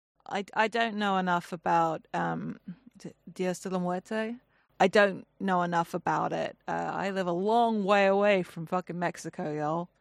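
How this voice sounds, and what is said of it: Noticeable non-Mexican regional accent. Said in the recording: “In case the accent wasn't a clue.”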